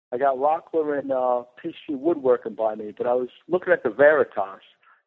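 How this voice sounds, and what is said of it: Southern-tinged Boston accent. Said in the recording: “Almost sounds like he's calling from Georgia by way of Boston, maybe. ... A Boston-y accent.”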